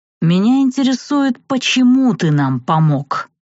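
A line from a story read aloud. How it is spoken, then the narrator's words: Hissing. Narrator (Russian): прошипел тот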